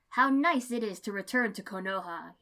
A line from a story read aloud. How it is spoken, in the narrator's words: declared loudly